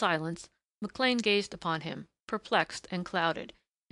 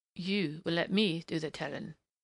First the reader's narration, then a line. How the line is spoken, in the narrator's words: stated at last grimly